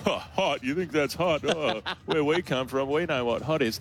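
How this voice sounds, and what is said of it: Imitates another person's voice. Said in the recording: “That's a very good impression”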